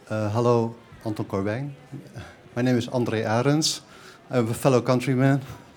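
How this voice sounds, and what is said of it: Noticeable foreign accent in English. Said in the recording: “I can tell by the accent.”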